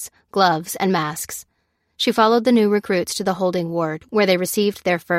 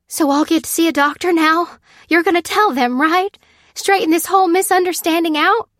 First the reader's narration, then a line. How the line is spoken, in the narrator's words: said the woman anxiously